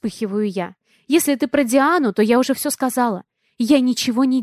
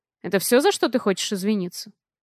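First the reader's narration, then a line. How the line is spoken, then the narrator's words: Calm question. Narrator (Russian): Спокойно интересуется он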